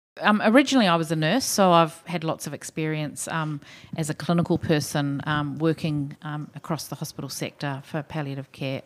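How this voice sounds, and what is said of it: New Zealand accent. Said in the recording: “maybe people can tell from my accent, I'm a Kiwi.”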